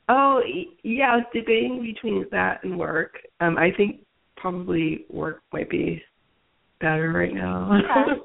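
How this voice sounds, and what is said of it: Congested voice with a cold. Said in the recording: “I have a cold.”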